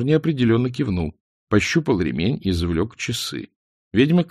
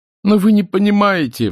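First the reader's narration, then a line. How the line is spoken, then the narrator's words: Wailing. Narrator (Russian): взвыл Мор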